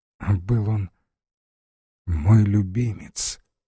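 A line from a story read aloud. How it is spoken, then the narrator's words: Very quiet. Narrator (Russian): проговорил он совсем тихо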